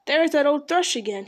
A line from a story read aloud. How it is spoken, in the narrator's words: he cried